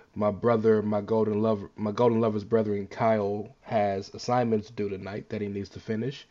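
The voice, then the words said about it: Sick, under-the-weather voice. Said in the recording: “I'm a little bit under the weather, so I apologize for my voice.”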